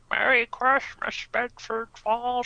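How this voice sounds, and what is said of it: Imitates another person's voice, duck-like. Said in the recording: “doing a Jimmy Stewart impression in the manner of a duck”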